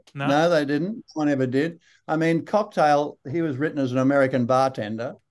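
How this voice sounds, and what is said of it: Australian accent. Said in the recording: “You're very Australian”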